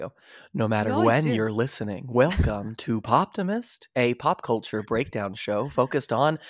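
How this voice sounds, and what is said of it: Usual voice. Nothing is said of it.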